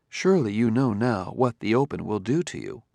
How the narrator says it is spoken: said Daniil softly

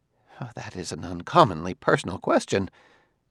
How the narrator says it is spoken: The sociologist muttered

